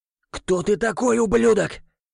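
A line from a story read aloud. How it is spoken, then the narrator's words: Furious growl. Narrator (Russian): зарычал, едва не полыхая от гнева, глава рода Горловых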